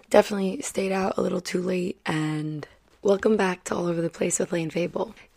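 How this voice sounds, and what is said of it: Tired, partly lost voice. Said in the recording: “You guys can probably hear how tired I am. My voice is, I feel like I half lost it last night.”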